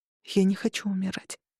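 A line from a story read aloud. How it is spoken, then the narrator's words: Whisper. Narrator (Russian): прошептала я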